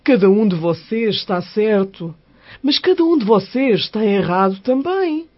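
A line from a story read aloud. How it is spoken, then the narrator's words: Plain. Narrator (Portuguese): disse o homem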